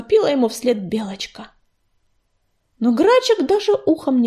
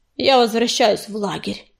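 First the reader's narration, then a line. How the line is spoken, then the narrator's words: Muttered through teeth. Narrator (Russian): процедил через плечо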